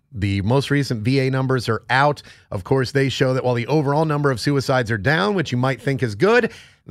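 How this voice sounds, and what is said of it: Strained, not fully recovered voice. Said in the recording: “I lost my voice last week, and... yeah, it's still not quite fully back... I don't have my full voice”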